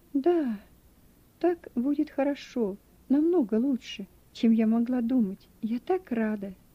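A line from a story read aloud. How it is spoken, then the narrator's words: Slow, sighing, unusual. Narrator (Russian): Наконец она вздохнула и медленно, совсем для нее непривычно, сказала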